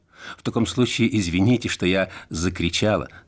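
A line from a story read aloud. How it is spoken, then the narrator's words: Plain. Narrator (Russian): сказала Зельда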